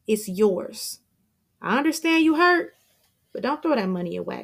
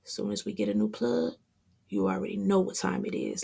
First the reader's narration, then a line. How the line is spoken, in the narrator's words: Lucky whispers to Damien